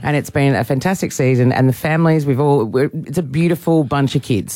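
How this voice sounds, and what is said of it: Husky, strained voice. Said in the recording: “You sound husky. ... I almost lost my voice.”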